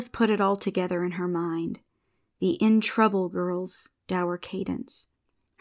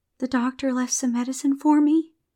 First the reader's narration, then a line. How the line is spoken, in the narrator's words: she said shakily